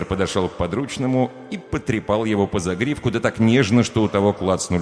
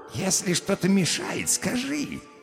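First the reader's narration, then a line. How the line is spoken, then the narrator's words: Caring purr. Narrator (Russian): заботливо промурлыкал лысый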